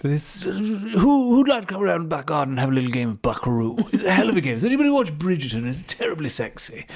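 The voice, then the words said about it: Boris Johnson impression. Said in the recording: “Get used to my most annoying accents of all time. Tina hates when I do accents. ... even when I do a bit of Boris ... just don't like impressions. ... these are good voices.”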